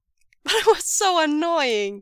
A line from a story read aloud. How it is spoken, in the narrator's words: Wei Ying laughs, flushed with a burst of giddy delight